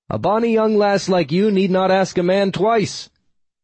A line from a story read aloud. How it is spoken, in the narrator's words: I shouted back, hoping her ancient ears understood me